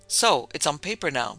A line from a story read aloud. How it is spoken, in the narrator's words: Boyington said sharply